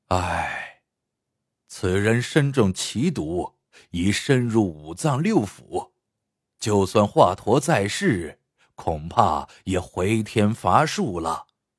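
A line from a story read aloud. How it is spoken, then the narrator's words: Doctor sighing. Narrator (Chinese): 大夫叹气道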